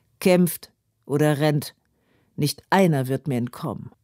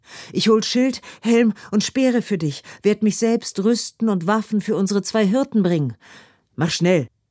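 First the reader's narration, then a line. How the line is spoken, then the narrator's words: Panting. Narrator (German): keucht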